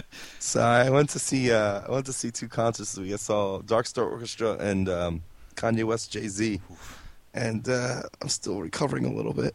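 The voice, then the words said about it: Scratchy, slightly hoarse voice. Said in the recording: “my voice is a little scratchy”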